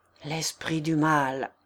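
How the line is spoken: Murmured. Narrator (French): murmura Thibaut

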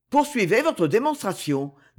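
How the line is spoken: Cold. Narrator (French): dit froidement Condé

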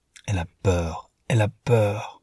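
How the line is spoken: Murmured. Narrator (French): en murmurant

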